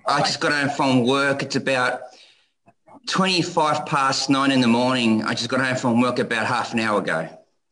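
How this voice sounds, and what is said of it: Australian accent. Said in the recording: “that accent just drives me crazy, Australia.”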